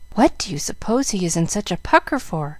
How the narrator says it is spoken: whispered Jill

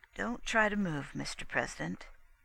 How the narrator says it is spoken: said the Navy doctor softly

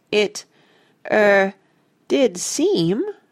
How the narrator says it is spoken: I faltered

